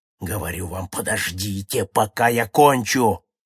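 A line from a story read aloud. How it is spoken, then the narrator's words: Roar. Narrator (Russian): проревел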